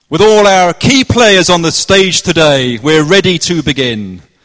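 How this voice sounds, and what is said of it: Put-on Cornish accent. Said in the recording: “This is my best Cornish accent”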